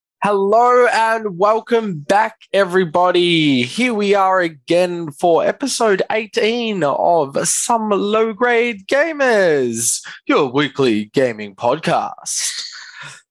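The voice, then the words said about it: Commentator announcer voice. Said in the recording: “nice voice. ... It's my commentator announcer voice.”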